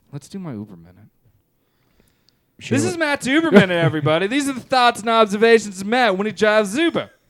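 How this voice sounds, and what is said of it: Impression of a co-host. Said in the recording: “this is just my impersonation of you”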